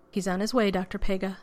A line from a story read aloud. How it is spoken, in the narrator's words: Andaman said